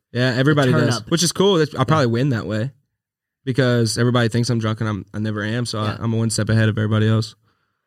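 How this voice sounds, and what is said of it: Country accent. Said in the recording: “You got a good country accent”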